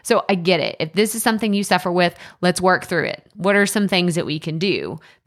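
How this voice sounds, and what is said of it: East Texas accent. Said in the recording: “that East Texas accent came out real strong”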